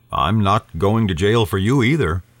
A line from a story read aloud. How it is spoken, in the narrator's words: answered evenly